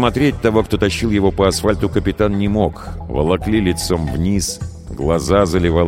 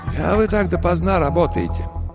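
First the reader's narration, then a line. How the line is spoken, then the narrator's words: Muffled, distant voice. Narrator (Russian): Голос звучал глухо, будто издалека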